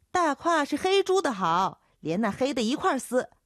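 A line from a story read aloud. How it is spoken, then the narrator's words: Young man shouting back. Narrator (Chinese): 叫豆蔻的年少姚杰喊回去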